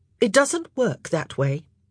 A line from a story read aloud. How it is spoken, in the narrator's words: Eloise said sharply